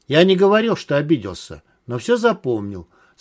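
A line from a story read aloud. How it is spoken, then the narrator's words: Calm reply. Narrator (Russian): спокойно ответил Дмитрий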